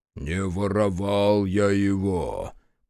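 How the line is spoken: Deep bass voice. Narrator (Russian): пробасил Мороз

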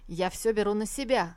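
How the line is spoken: Barked. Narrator (Russian): генерал рявкнул

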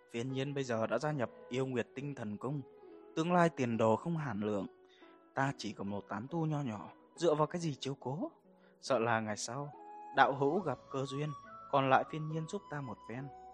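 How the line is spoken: Soft laugh while speaking. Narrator (Vietnamese): trong lời nói của hắn có ý tuyệt vọng, Tiêu Thần nhịn không được khẽ cười nói

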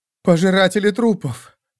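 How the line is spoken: Shuddering moan. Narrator (Russian): простонала Кэт, содрогаясь

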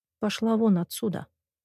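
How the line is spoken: Quiet, steady. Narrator (Russian): тихо проговорила я

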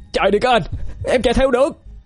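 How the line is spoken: Shouting. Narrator (Vietnamese): Cậu ta hét lên

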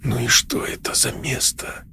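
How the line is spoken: Breathed near-whisper. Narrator (Russian): выдохнул он почти шепотом

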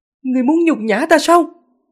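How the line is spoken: Angry. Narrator (Vietnamese): Việt Thanh Hùng giận dữ

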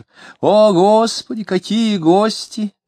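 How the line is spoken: Cheerful shout. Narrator (Russian): весело закричала она

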